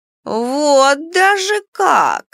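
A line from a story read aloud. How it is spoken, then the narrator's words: Drawling. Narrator (Russian): протянула Нара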